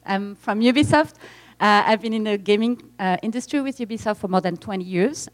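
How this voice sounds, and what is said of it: French accent. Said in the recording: “as you can maybe guess by my accent, I'm French.”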